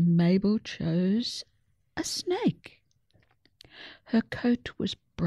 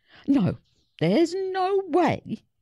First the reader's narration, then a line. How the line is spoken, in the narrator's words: screeched